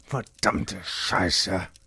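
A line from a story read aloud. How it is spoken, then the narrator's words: Angry growl. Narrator (German): knurrte und ballte die Fäuste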